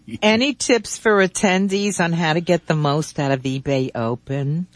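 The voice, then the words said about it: Put-on New Jersey accent. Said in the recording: “I'm trying to do my New Jersey accent.”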